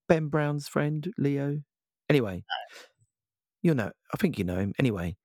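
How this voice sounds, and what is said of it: Low, worn-out voice. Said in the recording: “my voice is a bit low because I've been caning it at a wedding this weekend”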